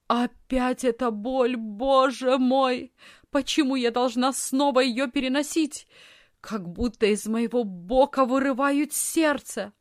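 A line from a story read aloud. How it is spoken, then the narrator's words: Loud moaning cry. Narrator (Russian): громко застонала и закричала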